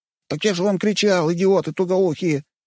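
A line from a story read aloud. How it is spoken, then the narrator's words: Lad's plaintive squeak. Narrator (Russian): жалобно пискнул паренек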